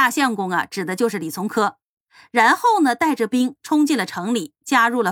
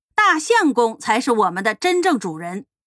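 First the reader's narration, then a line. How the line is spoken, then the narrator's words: Roused loud shouting. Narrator (Chinese): 羽林指挥使杨思权就受了感染，在队伍里面大声的喊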